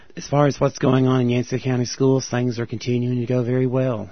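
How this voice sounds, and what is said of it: Hoarse voice. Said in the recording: “I'm sorry for my hoarse voice, but I've had a little bit of a cold.”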